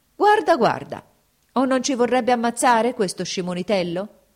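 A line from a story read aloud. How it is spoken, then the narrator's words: Soldiers shouting. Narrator (Italian): gridano gli usseri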